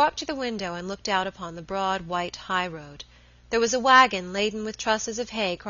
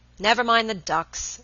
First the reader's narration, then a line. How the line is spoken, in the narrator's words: Robert said impatiently